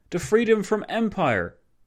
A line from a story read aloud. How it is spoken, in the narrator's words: O'Kelly exclaiming